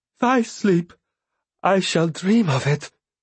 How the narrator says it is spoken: he replied, his voice shaking

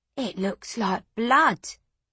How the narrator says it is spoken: Petru whispered

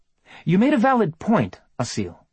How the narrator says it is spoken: Anna said firmly

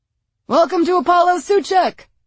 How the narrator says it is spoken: shouted

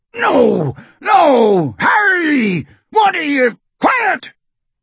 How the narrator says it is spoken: shouted Raoul

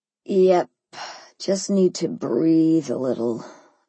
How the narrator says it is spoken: I groaned

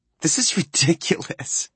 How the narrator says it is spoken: Blair laughs and says

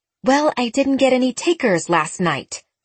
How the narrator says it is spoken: she snapped

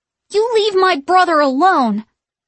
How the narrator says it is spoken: Danny shouted at Winifred

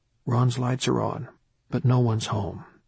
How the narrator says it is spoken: Quietly, the pastor confided to Gary

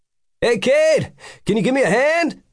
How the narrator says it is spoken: He yelled out

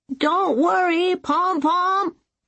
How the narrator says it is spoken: Zuari shouted down to him

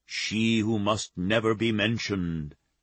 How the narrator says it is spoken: Stefano intoned in a ghostly voice

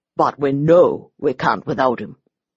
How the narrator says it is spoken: He paused, then said grimly

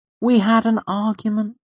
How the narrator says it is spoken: Savoy said calmly

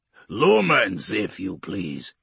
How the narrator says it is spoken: he grunts

